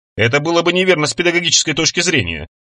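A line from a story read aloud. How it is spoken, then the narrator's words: Plain. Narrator (Russian): ответил Чалмерс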